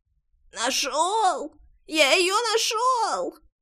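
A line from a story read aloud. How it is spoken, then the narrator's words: Hoarse, muffled from below. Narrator (Russian): Все так же хрипя ответили из-под постели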